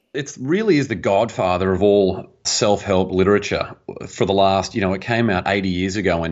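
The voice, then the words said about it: Australian accent. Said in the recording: “from Australia originally ... we love the accent”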